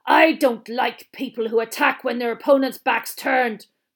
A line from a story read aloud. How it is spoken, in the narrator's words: growled Moody